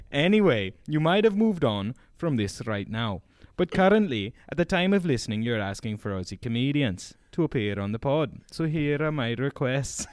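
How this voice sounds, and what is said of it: Put-on Welsh accent, fairly good. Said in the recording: “this is me doing his accent... that's good Welsh, man. That's not bad... I only do an all right Welsh”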